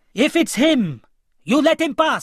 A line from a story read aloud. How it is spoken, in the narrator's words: screamed Asif